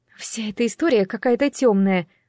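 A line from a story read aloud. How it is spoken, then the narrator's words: Sigh. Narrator (Russian): вздохнула Айви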